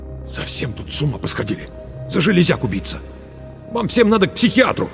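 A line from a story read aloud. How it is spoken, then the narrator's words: Through gritted teeth. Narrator (Russian): Марк процедил сквозь зубы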